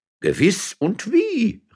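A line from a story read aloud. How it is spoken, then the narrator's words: Exclaiming. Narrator (German): rief der erste Domherr aus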